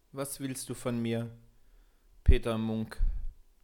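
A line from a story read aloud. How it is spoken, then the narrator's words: Dull hollow voice. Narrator (German): fragte mit dumpfer Stimme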